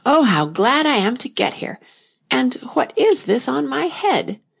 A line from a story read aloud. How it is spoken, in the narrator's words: she exclaimed in a tone of dismay